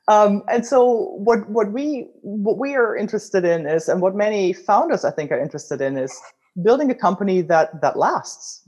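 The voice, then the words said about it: German accent. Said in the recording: “as you can tell from my accent, I'm originally German”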